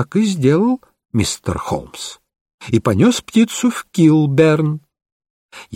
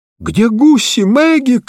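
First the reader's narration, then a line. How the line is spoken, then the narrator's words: Shouted. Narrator (Russian): крикнул я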